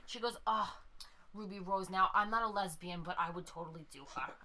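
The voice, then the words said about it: Put-on Long Island mom accent. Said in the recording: “Long Island ... Accent that I can do, by the way, is a Long Island mom”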